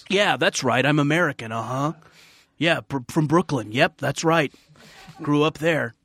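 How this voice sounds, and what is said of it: European actor's unplaceable American accent. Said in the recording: “the European-accented actor trying to be American and this weird, unplaceable thing they have ... Liam Neeson in Taken”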